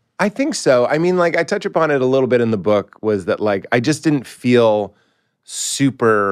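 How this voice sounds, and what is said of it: Usual voice. Nothing is said of it.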